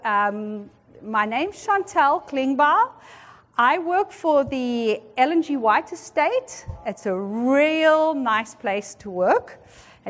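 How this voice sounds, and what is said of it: Speaks with a noticeable accent. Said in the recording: “if you're curious about the accent”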